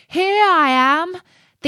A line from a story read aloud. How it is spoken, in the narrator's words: called out